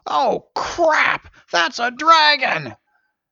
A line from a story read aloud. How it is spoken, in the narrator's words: Someone shouted